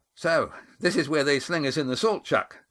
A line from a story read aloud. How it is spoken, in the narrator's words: said Cam cheerfully at his elbow